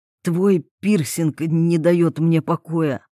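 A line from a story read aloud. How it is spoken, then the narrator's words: Hoarse young male voice. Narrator (Russian): послышался хриплый голос парня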